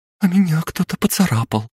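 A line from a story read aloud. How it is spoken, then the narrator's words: Trembling voice. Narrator (Russian): дрожащим голосом произнесла Мария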